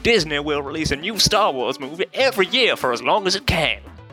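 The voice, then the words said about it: Put-on Southern American accent, hints British. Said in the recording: “your best white American standard household accent ... I'm going southern at this point ... That was pretty good. Still kind of make out the there's British. there's some Brit. ... You're a fancy southern.”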